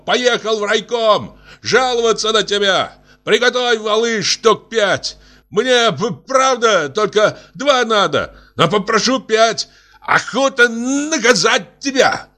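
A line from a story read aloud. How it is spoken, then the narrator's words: Shouted. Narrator (Russian): крикнул Антипову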